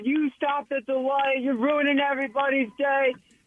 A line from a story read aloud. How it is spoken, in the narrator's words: the guy's yelling at him